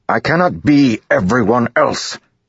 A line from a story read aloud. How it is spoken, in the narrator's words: Dalinar said, more sharply than he intended